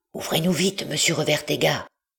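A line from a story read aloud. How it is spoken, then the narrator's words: Murmuring. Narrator (French): murmura Marius à son tour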